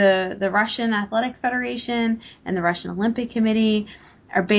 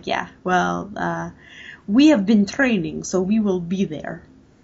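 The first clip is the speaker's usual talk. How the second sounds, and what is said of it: Deliberately bad Russian accent. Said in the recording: “Pardon the horrible Russian accent ... You keep up our proud tradition of terrible accents.”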